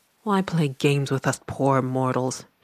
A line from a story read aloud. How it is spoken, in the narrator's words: she muttered